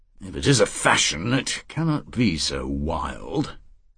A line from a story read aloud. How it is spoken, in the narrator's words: Walpert said dryly